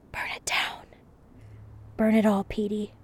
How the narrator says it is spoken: Aggie opened her eyes and whispered

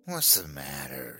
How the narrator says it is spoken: she sneered

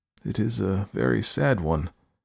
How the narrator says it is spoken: I murmured, scarcely knowing what to answer

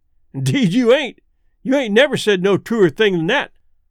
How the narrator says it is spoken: the man with the lantern would laugh and say

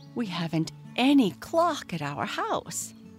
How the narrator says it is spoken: exclaimed

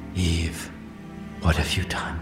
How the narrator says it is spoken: he whispered

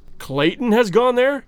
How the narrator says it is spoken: exclaimed Candler, visibly chagrined

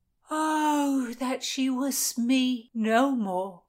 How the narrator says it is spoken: the jailer sighed

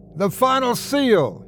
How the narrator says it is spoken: he yelled

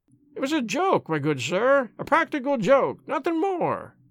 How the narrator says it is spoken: he whined incessantly

